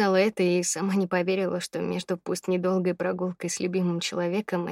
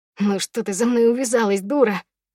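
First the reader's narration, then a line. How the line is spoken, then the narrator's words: Angry shout, breaking voice. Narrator (Russian): Зло выкрикнул он ломающимся голосом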